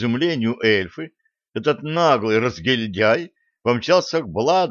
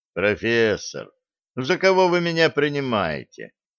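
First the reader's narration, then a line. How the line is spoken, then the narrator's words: Weary sigh. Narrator (Russian): устало вздохнул Блад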